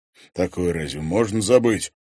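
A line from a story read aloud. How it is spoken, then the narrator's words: Cold. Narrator (Russian): холодно произнес Пивоваров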